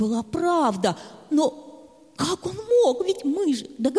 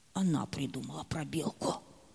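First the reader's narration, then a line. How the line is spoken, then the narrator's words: Unhappy quiet whisper. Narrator (Russian): совсем несчастным, и он тихо прошептал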